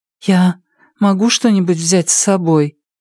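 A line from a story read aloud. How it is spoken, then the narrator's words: Timid woman. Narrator (Russian): Женщина робко сказала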